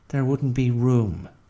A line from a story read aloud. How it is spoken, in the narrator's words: said Bertie